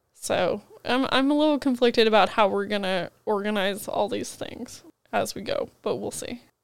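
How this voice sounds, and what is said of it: Husky, congested voice from a cold. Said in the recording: “I'm fighting a cold. So, that's why I sound like a whiny child or a husky, sexy voice or somewhere in between ... I sound weird”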